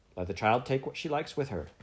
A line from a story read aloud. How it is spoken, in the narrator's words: said sharply